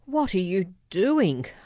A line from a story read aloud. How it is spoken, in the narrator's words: screamed over the din of the victor